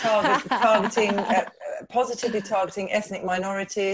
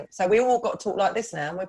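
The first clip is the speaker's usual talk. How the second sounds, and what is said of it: Put-on Estuary English accent. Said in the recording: “Estuary accent.”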